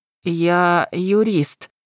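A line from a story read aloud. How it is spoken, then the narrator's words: Uncertain mutter. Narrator (Russian): неуверенно пробормотал Веня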